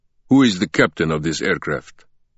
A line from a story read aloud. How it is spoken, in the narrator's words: one of them demanded in a heavy accent